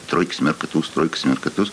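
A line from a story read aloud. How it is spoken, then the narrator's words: Muttering. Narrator (Russian): бормочет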